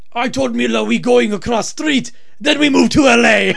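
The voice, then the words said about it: Thick Ukrainian accent, broken English. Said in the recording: “Mila Kunis' mom still has a big, thick accent.”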